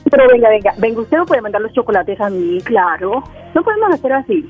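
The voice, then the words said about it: Colombian Medellín Spanish accent. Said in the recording (Spanish): “de Medellín ... con ese acento de voz que tienes”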